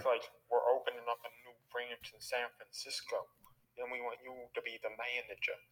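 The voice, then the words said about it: Bad put-on New York Italian accent. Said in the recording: “Why are you doing the accent?... I'm the only one who attempts an Italian accent... really bad fucking New York Italian accents”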